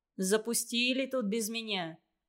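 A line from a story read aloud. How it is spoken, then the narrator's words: Grumbling. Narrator (Russian): ворчал он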